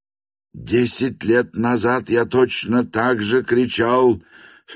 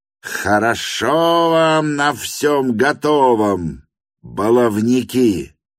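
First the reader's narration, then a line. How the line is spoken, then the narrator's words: Gleeful mocking roar. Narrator (Russian): проревел у самой эстрады тот же семинарист, с удовольствием скали зубы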